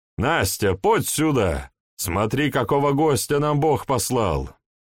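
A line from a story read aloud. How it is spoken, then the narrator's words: Shouting. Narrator (Russian): крикнул он жене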